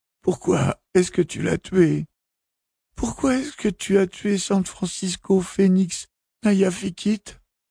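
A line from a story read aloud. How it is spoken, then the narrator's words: Voice breaking into sobs. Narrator (French): Sa voix se brisa en sanglots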